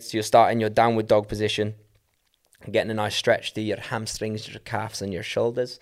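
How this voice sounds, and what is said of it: Put-on Scottish accent. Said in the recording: “I'm doing a Scottish accent”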